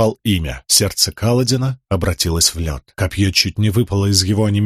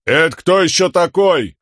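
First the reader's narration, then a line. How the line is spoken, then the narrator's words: Shouted reply. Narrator (Russian): крикнул в ответ ему Камень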